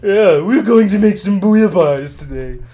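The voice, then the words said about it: Imitates another person's voice. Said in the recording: “Julia Childs is probably better than my Cake Boss impression ... That was better. That was good.”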